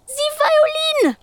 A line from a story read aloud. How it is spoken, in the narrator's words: wails